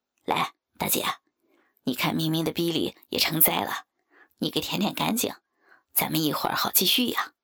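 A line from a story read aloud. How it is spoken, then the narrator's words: Laughing. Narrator (Chinese): 王五 笑道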